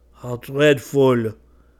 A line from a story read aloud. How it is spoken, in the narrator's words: cried John with a shudder